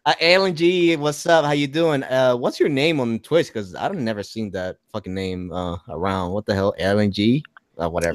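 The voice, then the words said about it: Thick accent. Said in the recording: “It's just probably my accent more than anything, because I got a thick-ass accent”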